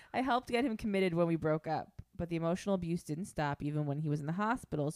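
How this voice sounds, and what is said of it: British-sounding accent. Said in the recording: “I'm just adding the accent. ... You don't even need to put on the accent. Just you reading it, you sound fucking British.”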